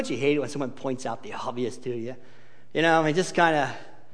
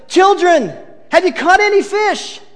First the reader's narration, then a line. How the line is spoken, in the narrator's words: he yells out to them